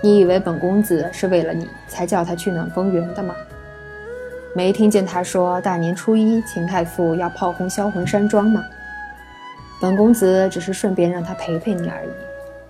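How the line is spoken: Calm, faint smile. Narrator (Chinese): 萧玉伦淡淡一笑，道

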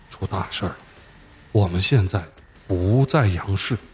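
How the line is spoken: Soft. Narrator (Chinese): 我又轻声说

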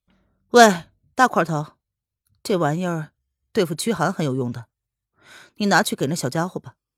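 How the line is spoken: Cold laugh. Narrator (Chinese): 黑影 冷冷一笑 对魏子峰说道

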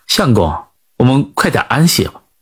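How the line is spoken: Gentle. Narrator (Chinese): 刘菲儿 便温柔的就说

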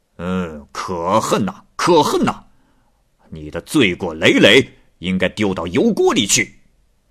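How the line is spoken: Furious. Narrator (Chinese): 大王怒气冲冲地说

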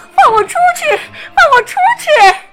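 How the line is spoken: Shouting. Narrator (Chinese): 贝琳达大喊

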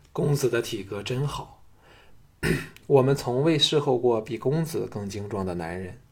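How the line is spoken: Admiring praise. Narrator (Chinese): 小美赞叹说

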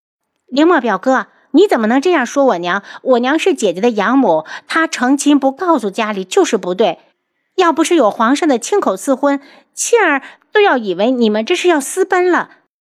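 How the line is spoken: Crying out. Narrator (Chinese): 林庆儿首先的叫起来

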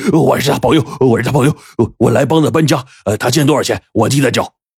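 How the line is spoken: Gleeful, hurried. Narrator (Chinese): 大傻这嘴都乐歪了呀，急忙就说

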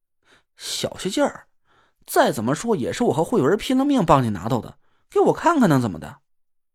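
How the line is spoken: Angry muttering. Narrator (Chinese): 我没好气儿的愤愤的嘟囔了几声

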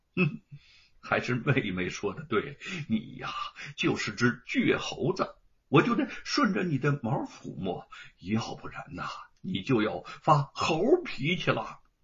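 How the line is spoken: Laughing. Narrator (Chinese): 叶云一笑

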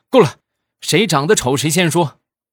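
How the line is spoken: Loud bellow. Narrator (Chinese): 我们经理大吼一声

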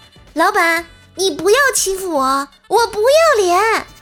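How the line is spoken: Loud, indignant. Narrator (Chinese): 薯条不答应了，大声说道

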